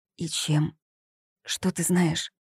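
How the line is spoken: Fearful whispered question. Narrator (Russian): Зоя насторожилась, а потом, шепотом, боясь, что их услышат, спросила

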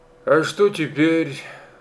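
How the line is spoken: Sighed. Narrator (Russian): вздохнул

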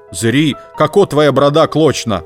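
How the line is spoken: Shouted. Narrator (Russian): Хозяин крикнул было Ивану Ивановичу

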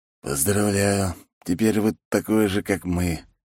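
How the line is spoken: Doomed whisper. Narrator (Russian): обреченно прошептал комиссар

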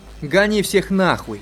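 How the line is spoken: Irritated shouting. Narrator (Russian): Раздраженно кричал тот же голос

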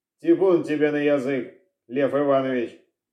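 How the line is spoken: Hoarse after coughing. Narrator (Russian): Откашлявшись, прохрипел Мельников

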